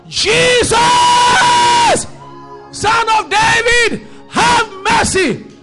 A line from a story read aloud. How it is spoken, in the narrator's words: he shouted